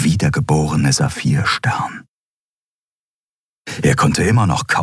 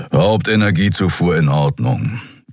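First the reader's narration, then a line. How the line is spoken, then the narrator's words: Growled. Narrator (German): knurrte Keru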